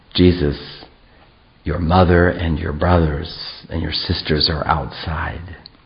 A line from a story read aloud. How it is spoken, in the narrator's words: drew near and whispered in his ear a second time